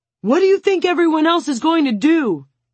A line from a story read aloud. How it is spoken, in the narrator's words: Bobo yells